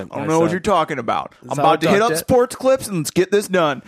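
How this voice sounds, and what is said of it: Put-on weird bro accent. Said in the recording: “what happened to your voice? Why do you have a weird bro accent?”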